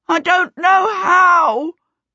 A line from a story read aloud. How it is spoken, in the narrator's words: Peter wailed